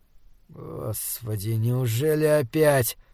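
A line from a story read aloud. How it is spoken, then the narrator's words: Groan. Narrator (Russian): простонал он на Морене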